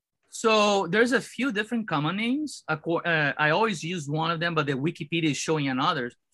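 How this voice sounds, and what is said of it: Brazilian accent. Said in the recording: “my Brazilian accent”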